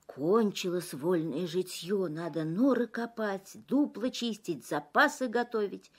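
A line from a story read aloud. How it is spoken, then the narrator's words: Grumbling forest animals. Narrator (Russian): Звери лесные ворчат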